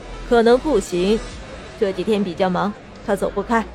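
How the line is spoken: Cold, dismissive. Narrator (Chinese): 秀秀嘴巴一撇，冷声道

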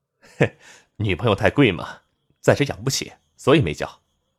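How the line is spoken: Sheepish chuckle. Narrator (Chinese): 连城嘿嘿一笑

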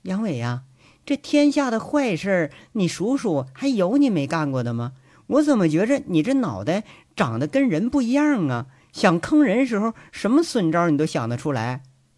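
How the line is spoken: Laughing question. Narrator (Chinese): 笑着问杨伟

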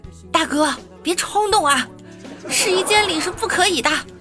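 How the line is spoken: Shouting saleswoman. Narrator (Chinese): 导购小姐在喊

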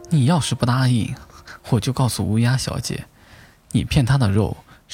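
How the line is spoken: Sly, leisurely voice. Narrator (Chinese): 狡诈的声音悠悠冒出

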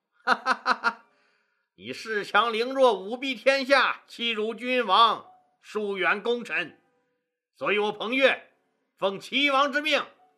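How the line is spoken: Laughing loudly. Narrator (Chinese): 彭越大笑

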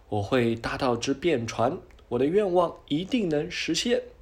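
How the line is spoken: Sighing, then loud shout. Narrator (Chinese): 小海螺却直叹气，最后忍不住大声喊

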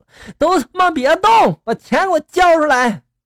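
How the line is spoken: Loud shout. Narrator (Chinese): 姐夫在那大喊了一声

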